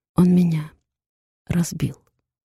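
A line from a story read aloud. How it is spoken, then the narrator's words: Barely audible whisper. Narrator (Russian): шепчу еле слышно, чтобы услышала только Сара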